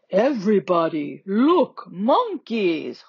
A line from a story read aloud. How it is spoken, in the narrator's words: Jorge bellows